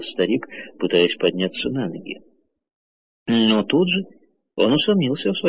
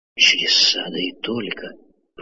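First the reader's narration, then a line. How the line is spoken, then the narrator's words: Old man whispering. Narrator (Russian): прошептал старик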